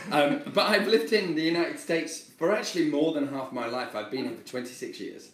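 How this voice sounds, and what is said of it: Strong British accent. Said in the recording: “I'm obviously British with this very strong British accent”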